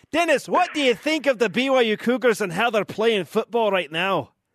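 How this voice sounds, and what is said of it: Put-on Scottish accent. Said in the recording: “I'm better at my Scottish accent ... That is pretty good. ... That is an impressive Scottish accent for sure.”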